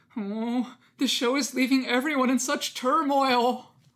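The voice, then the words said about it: Plaintive voice imitating another person. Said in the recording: “in the most plaintive voice possible ... That's a very good impression of what I sound like.”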